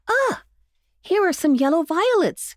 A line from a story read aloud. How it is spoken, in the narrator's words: cried Jimmy